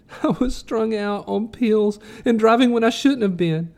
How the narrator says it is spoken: moaned

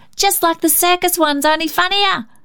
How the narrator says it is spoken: cried Cecil

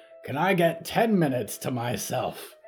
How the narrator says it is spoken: Barb sighed loudly

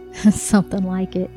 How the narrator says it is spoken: Dale giggled

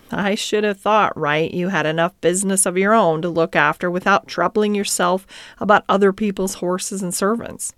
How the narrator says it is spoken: his companion, who said laughingly

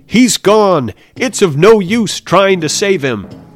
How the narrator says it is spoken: One of them shouted

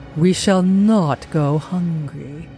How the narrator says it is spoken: A purring, gloating voice came from the dim form, and it said triumphantly

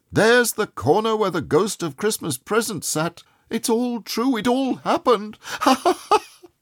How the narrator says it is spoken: He laughed and laughed

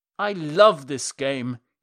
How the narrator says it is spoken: he cried

